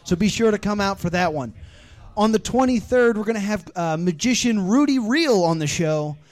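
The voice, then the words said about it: Breathless, out-of-breath speech. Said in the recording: “I'm out of breath.”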